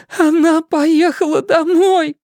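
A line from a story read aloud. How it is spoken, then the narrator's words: Sobbing. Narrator (Russian): с губ Кей сорвалось рыдание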